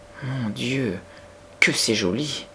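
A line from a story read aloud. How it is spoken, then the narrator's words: Murmured. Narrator (French): murmura Becky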